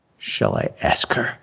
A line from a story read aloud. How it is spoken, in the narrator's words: She whispered